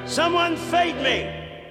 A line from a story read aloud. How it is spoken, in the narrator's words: hollered